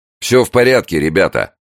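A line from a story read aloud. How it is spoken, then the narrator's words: Shouting. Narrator (Russian): крикнул он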